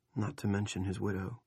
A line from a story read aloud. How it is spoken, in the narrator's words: Rusty said softly